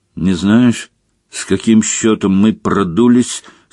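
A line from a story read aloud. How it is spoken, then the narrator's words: Asked through gritted teeth. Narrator (Russian): сквозь зубы поинтересовался он у Рона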